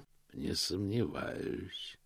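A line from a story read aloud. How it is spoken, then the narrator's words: Quiet. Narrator (Russian): тихо произнес Позолот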